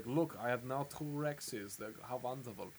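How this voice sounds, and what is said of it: Put-on villain accent. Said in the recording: “Forgive my accent”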